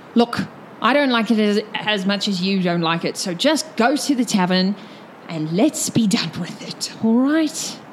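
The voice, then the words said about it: Mixed accent character voice. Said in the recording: “in his halfling accent, which is all of the accents combined.”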